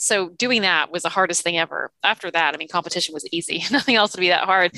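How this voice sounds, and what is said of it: Canadian Toronto accent. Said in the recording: “as you can tell from my accent, I grew up in Toronto”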